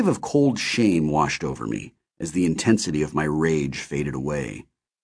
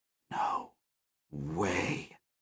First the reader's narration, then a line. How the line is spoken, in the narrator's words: someone whisper